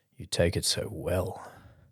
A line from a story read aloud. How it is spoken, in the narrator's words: Dax murmured